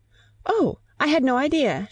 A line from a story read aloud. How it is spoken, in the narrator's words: she exclaimed, getting very red